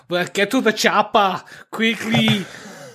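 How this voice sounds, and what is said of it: Over-the-top German accent. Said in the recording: “Very over the top German accents ... Austrian German”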